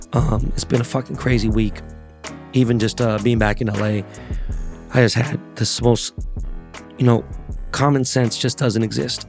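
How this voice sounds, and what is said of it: Hoarse, strained lost voice. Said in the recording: “My voice is fucked up ... Lost my voice, obviously, screaming, yelling.”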